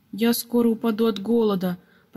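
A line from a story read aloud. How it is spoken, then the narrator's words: Grumbling. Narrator (Russian): проворчал Пепс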